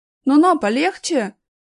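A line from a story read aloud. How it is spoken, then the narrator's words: Shouted. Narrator (Russian): крикнул Аркаша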